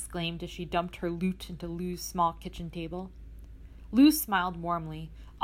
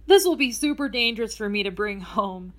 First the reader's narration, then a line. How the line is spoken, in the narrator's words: Emily chuckled